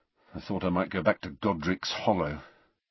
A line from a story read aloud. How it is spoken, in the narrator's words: Harry muttered